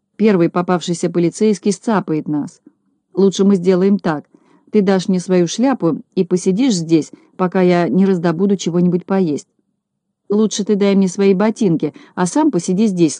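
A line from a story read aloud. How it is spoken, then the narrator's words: Plain. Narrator (Russian): сказал Незнайка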